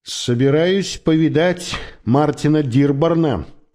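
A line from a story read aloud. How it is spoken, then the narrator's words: Plain. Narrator (Russian): сказал я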